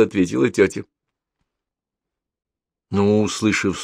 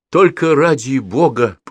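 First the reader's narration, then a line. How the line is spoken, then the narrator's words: Moaning. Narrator (Russian): простонал он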